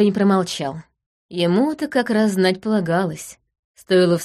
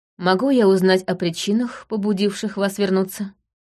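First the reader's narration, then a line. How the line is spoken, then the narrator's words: Even-toned question. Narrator (Russian): спросил он ровным тоном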